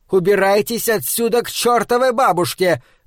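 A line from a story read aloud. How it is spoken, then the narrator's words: Shouting. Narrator (Russian): закричала Энни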